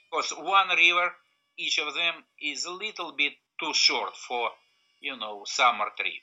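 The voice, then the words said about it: Thick Russian accent. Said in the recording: “thick Russian accent”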